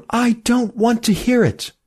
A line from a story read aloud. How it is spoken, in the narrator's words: cried Emmy